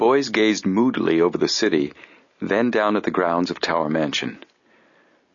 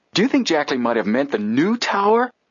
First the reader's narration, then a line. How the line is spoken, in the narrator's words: Joe exclaimed suddenly